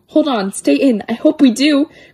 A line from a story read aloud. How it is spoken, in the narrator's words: cried Ickle me, pickle me, tickle me too